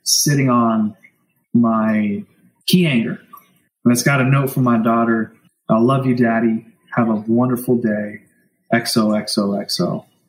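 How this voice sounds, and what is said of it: Teary, emotional voice. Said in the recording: “getting teary-eyed ... I'm so emotional now”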